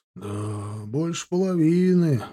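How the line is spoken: Sighing. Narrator (Russian): вздохнул Степан

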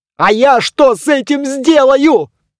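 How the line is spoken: Yelled back. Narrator (Russian): завопил в ответ Доплер

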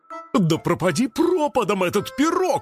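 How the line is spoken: Exclamation. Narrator (Russian): воскликнул Лосяш

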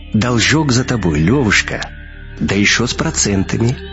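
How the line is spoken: Gentle whistling repetition. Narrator (Russian): ласково повторил свист

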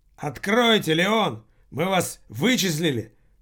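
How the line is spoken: Shout, heavy accent. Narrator (Russian): прокричал человек по-английски с сильным акцентом

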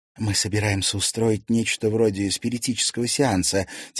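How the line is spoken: Quiet. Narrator (Russian): тихо сказала Алена Александровна

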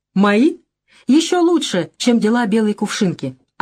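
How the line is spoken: Plain. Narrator (Russian): ответил Красный Паук

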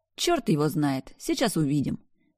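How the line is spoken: Almost cheerful. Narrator (Russian): почти весело ответила я

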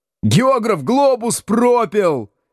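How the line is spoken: Jubilant yell. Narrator (Russian): ликующе завопил Градусов

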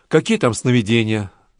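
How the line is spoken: Sighing. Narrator (Russian): вздохнула Канила

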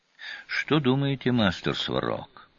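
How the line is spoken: Quiet question. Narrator (Russian): негромко спросил лежащий рядом Гор Рошаль

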